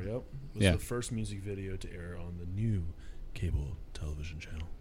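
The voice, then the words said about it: Announcer-style radio voice. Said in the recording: “Was that your producer voice? Or your radio voice? ... I believe so.”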